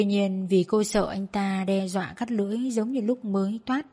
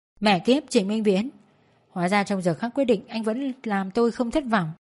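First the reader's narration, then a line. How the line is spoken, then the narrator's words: Agitated, near outburst. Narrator (Vietnamese): Thanh Tịnh kích động đến nỗi suýt chút nữa thì bụt miệng kêu lên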